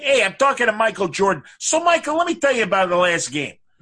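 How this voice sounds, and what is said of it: Put-on Chicago accent. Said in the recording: “you'll hear a great Chicago accent”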